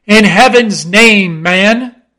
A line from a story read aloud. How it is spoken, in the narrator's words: cried Stubb